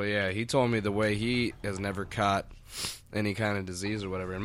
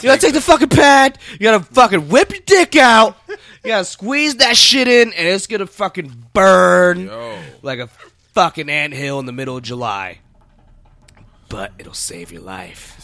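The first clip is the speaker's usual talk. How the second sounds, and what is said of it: Imitates another person's voice, screaming. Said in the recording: “He's screaming. ... that's how he talks.”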